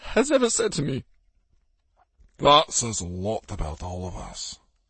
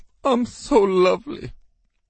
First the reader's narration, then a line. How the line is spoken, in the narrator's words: Gary sobbed